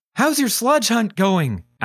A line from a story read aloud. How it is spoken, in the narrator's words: asked Charlie